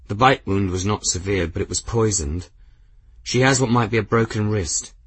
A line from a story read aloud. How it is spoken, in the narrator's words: Sorrelin replied, his tone wooden but steady